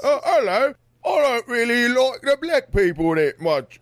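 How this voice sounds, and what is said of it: Put-on refined English accent. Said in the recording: “they have an accent, so it's refined too at the same time ... That was very good.”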